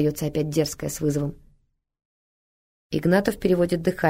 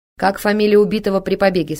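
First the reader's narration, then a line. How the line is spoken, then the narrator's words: Loud question. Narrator (Russian): спрашивает громко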